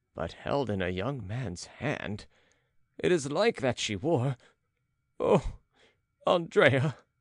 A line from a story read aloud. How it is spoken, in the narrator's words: He sobbed as if it tore up his heart